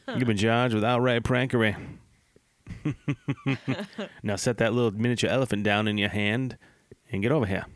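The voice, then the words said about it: Southern judge character voice. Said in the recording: “I don't know why I made him sound like a southern judge from a movie.”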